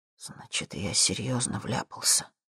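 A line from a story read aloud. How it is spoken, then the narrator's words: Whisper. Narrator (Russian): Зак ... прошептал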